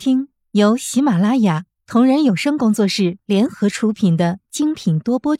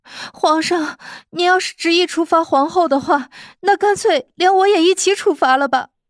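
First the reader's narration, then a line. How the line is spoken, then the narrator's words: Anxious pleading. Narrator (Chinese): 慕容菲菲顿时也急了，哀求道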